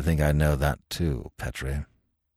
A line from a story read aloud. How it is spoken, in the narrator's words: he said gravely